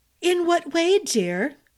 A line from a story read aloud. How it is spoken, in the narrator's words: Izalova's voice had a rich tone, as if she found some amusement but was polite enough not to laugh